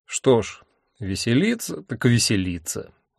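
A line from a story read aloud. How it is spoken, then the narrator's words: Grim. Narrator (Russian): мрачно сказал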